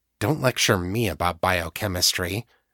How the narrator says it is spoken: Danny muttered

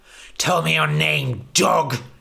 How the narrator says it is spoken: he spat

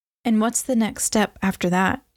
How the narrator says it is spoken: Amy asked, her voice as tentative as her hope

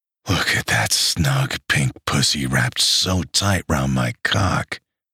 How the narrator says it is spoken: he groaned

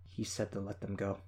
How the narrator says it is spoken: she said, her voice small

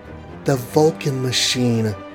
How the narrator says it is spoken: breathed the Wasp

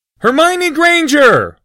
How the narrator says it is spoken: Harry said loudly

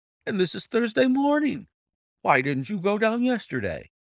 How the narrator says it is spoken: exclaimed

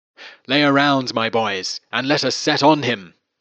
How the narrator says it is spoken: cried

